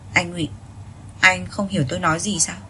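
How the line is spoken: Cold, impatient question. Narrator (Vietnamese): lạnh lùng, hỏi với vẻ không kiên nhẫn

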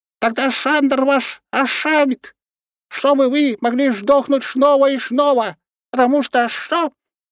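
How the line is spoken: Dramatic pause, sudden loud shriek. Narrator (Russian): Шнырка сделал драматическую паузу и внезапно громко заверещал

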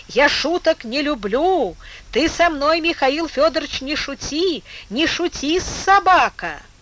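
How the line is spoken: Irritated, escalating shout. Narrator (Russian): Раздражение, помимо воли, с новой силой поднялось в Типуеве, и он закричал, распаляя себя

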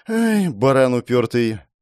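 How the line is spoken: Heavy sigh. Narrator (Russian): тяжело вздохнула

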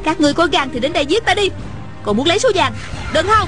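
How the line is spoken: Shouting. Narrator (Vietnamese): la lên

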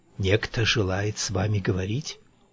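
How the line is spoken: Close whisper. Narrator (Russian): итальянец Фортини склонился к моему плечу и прошептал

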